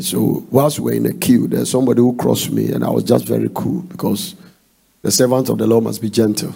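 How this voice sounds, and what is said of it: Non-American Ghanaian accent. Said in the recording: “they can tell your accent that you are not an American. So they used to say you have an accent. ... I'm from Ghana.”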